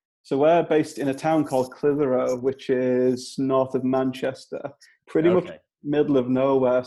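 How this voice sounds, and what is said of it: Broad Northern English accent. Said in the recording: “our Northern English accent ... we got some pretty broad accents here”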